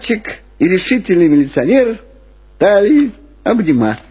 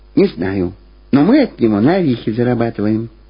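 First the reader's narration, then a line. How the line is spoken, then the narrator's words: Quiet reply. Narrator (Russian): так же тихо ответила Люба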